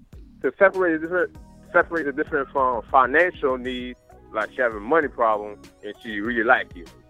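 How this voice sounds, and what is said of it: Heavy country accent, hard to understand. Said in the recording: “I used to date a guy that had an accent in country ... dating the country niggas and decoding it, because I don't know one word this nigga said”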